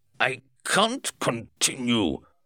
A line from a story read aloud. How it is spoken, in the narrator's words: shout